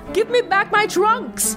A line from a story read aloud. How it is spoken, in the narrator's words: One boy shouted in panic